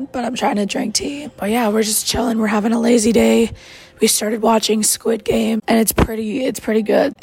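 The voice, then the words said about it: Voice sounds really bad. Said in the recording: “I sound like this and it's like really bad”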